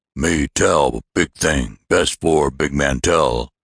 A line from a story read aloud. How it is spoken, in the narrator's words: broke in another voice, a deep, booming voice that could only proceed from a powerfully built man